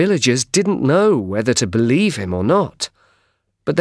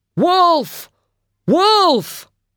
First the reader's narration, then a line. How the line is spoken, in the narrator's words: He shouted